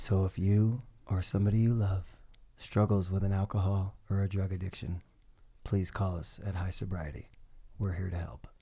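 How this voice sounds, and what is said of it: Commercial voiceover announcer voice. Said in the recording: “in my best commercial voice? ... Was that a good voiceover?”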